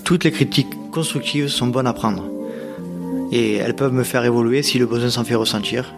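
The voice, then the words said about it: Nord-Pas-de-Calais French accent. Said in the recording (French): “mon accent du Nord-Pas-de-Calais”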